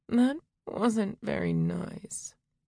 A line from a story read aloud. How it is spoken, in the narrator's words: murmured